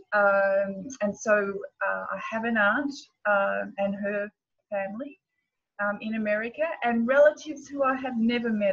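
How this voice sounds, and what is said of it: Australian accent. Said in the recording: “wonderful accent that you have ... great accent ... I'm an Aussie”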